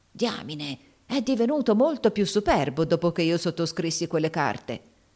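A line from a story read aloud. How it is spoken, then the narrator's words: Muttering through teeth. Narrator (Italian): borbottò fra i denti Haley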